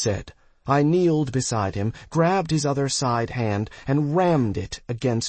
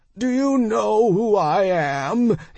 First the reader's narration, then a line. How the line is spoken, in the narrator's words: he bellowed